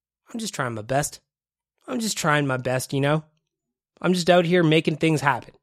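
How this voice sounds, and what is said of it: Nasal, phlegmy congested voice. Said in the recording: “I sound a little nasally, a little phlegmy”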